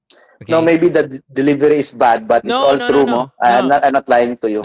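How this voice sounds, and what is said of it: Bisaya Filipino accent. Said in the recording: “because I'm Bisaya... your accent. I love the Bisaya flavor. It's very authentic.”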